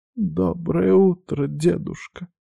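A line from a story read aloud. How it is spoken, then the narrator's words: Hoarse, weak voice. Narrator (Russian): произнесла она с хрипотцой, как раненая птичка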